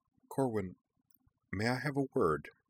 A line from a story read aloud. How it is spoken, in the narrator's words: Jinora asked quietly